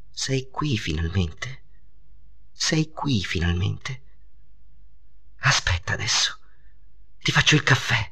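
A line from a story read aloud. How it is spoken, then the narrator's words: Overwhelmed murmur. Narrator (Italian): mormorò lei, non trattenendosi più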